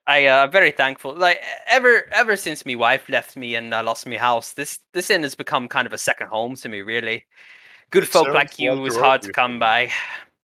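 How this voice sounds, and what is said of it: Put-on Scottish accent for a character. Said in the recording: “Now I'm Scottish. ... Like the fourth accent really? I've had for him.”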